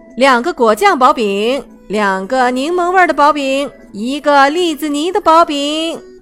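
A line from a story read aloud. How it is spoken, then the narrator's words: Shouting. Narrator (Chinese): 他喊道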